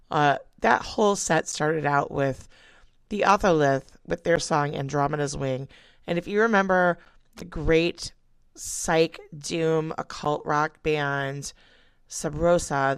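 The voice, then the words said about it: Rough, hoarse voice. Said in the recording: “I sound so rough”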